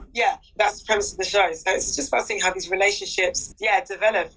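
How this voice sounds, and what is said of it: Croaky, worn-out voice. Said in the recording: “my voice is going ... It's been a long day talking ... we're both croaky together”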